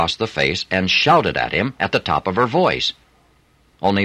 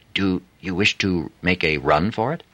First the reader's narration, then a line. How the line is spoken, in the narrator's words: She whispered to Adam